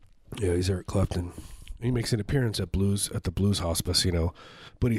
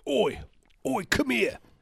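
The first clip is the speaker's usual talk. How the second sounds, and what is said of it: Thick working-class Cockney accent. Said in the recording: “He does have like a very thick. ... He's a working class Cockney accent.”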